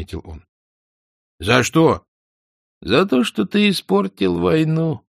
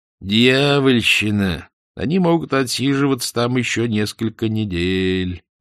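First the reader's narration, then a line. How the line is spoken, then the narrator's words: Gloomy. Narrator (Russian): мрачно заметил незнакомец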